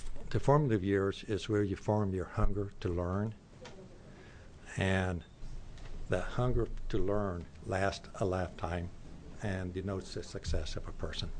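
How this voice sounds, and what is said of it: Southern Arkansas accent. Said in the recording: “I grew up on a farm in southeast Arkansas. That's my dialect.”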